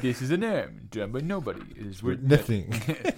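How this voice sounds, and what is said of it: Impression of The Simpsons' Comic Book Guy. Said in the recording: “Good impression.”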